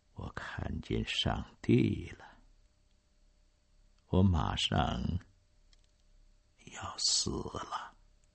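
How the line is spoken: Soft, tearful. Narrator (Chinese): 涌出眼眶， 嘴里只是轻声的说

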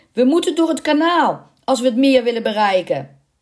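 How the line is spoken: Shouting. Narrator (Dutch): Hij schreeuwde Boiseau toe

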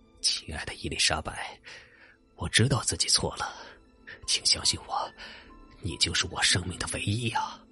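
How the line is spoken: Low murmuring. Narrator (Chinese): 他不停的低声默念着

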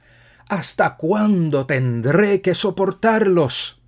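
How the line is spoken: Impatient, annoyed exclamation. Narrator (Spanish): impacientarse e incomodarse con sus discípulos al punto de exclamar

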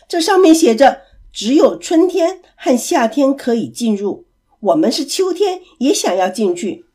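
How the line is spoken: Loud. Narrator (Chinese): 男士大声地说

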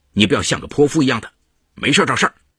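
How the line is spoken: Loud, deliberate scolding. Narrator (Chinese): 理亏的毕小龙故意大声呵斥刘佳梅说

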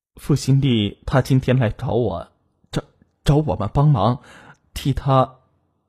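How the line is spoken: Flat, indifferent question. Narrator (Chinese): 黄胜明淡淡的问道

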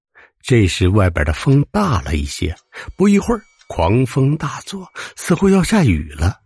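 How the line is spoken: Laughing. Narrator (Chinese): 张伯 笑道

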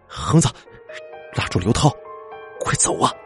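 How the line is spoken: Near roar. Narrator (Chinese): 我这几个字几乎是咆哮出来的

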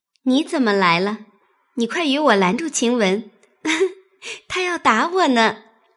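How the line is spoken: Smiling. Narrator (Chinese): 一见宝玉，方含笑…说道

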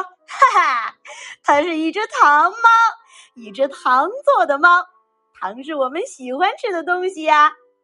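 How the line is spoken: Laughing bold mouse. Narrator (Chinese): 胆大的老鼠笑着说

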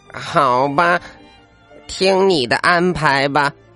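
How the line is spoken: Sighing. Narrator (Chinese): 小猪叹了口气

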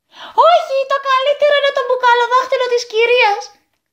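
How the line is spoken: Boy shouting. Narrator (Greek): φώναξε το τρίτο αγόρι

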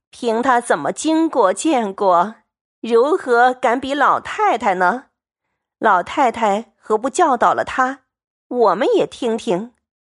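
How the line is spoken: Laughing together. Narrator (Chinese): 薛姨妈等都笑说

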